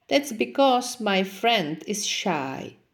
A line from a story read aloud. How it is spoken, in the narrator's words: replied the snake